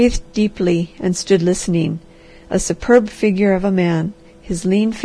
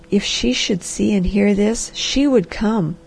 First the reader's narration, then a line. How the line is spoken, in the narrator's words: he said softly